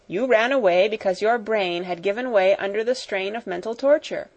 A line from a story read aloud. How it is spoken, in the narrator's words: said